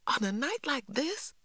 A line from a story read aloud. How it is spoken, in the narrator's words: I exclaimed